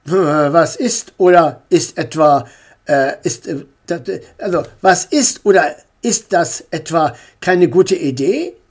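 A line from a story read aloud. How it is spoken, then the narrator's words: Stammer. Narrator (German): stotterte Herr Meier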